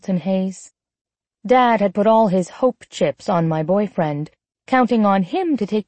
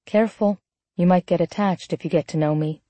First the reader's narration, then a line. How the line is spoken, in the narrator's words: I said quietly